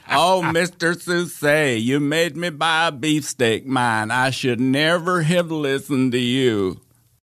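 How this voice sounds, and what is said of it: Imitates another person's voice. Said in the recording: “your Grady Sutton impression”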